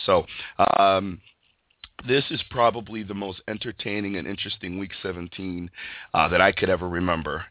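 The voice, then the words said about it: Slightly stuffy, congested voice. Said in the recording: “my voice is a little off ... I'm battling a cold ... just a little stuffy”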